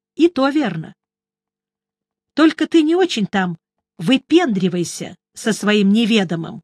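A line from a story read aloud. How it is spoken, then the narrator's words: Stern. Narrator (Russian): строго сказала она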